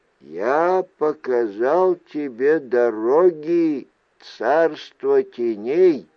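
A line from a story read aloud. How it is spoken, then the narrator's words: Slow. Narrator (Russian): медленно произнес Сухай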